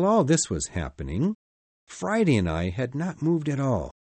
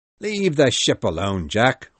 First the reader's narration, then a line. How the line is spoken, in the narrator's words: drunk men said, laughing